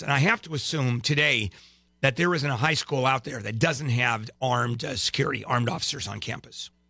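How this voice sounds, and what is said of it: Slightly hoarse, fading voice. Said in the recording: “Am I losing my voice a little bit? ... A little bit.”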